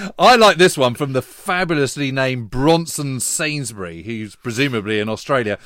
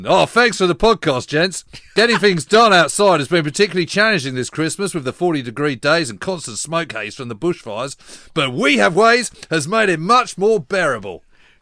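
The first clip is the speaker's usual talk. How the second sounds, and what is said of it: Put-on Australian accent. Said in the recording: “I'm gonna use an Aussie accent.”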